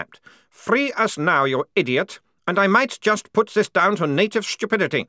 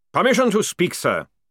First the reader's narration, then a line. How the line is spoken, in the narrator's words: barked Jackram